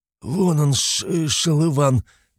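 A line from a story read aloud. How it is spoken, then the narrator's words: Beaten fighter's wheeze. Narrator (Russian): прохрипел избитый в кровь боец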